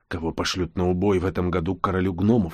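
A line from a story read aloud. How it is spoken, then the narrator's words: Barely audible. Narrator (Russian): едва слышно проговорил я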